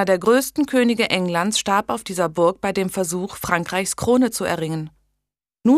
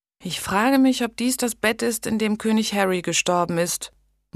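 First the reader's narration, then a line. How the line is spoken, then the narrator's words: Sleepy murmur. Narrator (German): murmelte Blanche schläfrig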